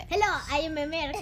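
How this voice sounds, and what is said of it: Poor put-on American accent. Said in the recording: “whenever I do an American accent, this is how it turns out.”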